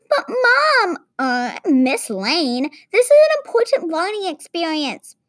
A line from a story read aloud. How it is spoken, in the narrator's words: Stella, a fifth-grade know-it-all, in a whiny tone shrieked